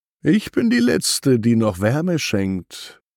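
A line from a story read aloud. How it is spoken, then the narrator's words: Gentle voice. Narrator (German): sagt sie sanft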